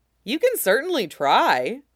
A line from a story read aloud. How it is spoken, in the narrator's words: Brink says brightly